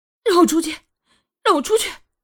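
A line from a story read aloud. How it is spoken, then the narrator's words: Loud shouting. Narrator (Chinese): 双月在房间里大喊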